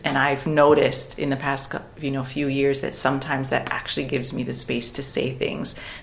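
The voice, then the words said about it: Speaks with a noticeable accent. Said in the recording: “having this accent”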